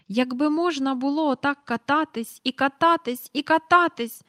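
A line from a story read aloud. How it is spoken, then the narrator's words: Exclaimed. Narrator (Ukrainian): вигукнув Майкл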